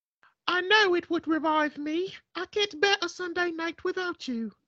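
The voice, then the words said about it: Weird put-on man and woman voices. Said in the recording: “I'm gonna do some weird accents. ... do a man and a woman accent.”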